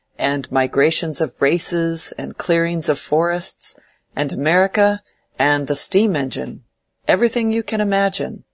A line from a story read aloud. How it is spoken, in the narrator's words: said Will, laughing